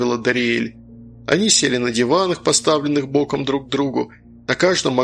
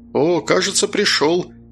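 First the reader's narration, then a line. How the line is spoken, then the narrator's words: Young mage exclaiming. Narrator (Russian): воскликнул юный маг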